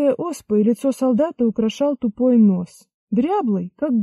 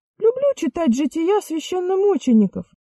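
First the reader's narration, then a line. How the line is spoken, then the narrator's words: Thin, guilty voice. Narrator (Russian): говорил он тонким голосом и почему-то виноватым тоном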